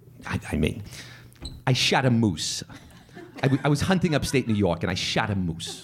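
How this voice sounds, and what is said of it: Imitates another person's voice. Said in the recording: “do you do a Woody Allen impression?”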